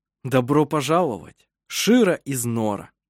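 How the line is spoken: Joyful surprised exclamation. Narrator (Russian): Она радостно и удивленно воскликнула

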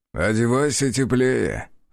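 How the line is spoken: Chuckling. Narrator (Russian): хохотнул Азар

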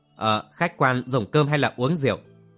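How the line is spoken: Waiter stammering question. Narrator (Vietnamese): Gã hầu bàn lắp bắp hỏi

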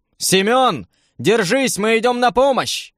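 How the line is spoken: Shouted. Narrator (Russian): крикнул я

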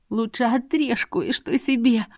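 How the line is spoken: Hoarse rasp. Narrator (Russian): прохрипела

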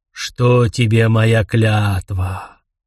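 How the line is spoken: Weary, seething with hatred. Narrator (Russian): Прозвучало устало, хотя можно было расслышать клокочущую в голосе ненависть

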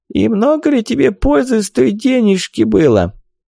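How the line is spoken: Hoarse croaking old voice. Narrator (Russian): Хриплый старческий голос, больше похожий на карканье

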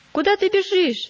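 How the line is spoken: Shouted. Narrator (Russian): закричал упрямый

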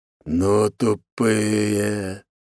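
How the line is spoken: Drawled, wolf. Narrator (Russian): протянул волк

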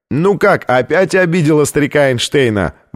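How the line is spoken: Shouting out. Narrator (Russian): выкрикнул один из них

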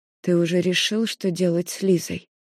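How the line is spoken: Quiet question. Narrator (Russian): спрашивая тихо

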